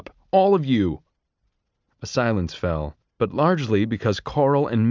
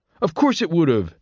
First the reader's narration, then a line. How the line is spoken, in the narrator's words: snapped Pup